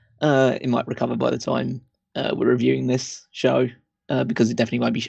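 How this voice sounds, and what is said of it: Croaky, hoarse voice. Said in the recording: “Sorry if my voice is a bit croaky. I was trying to shout over 80,000 people this weekend, so the voice has gone a little bit.”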